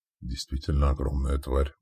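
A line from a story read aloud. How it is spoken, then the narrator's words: Whispered. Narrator (Russian): прошептал Радко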